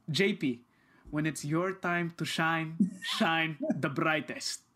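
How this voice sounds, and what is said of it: Imitated Filipino accent. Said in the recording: “my dad has a Filipino accent”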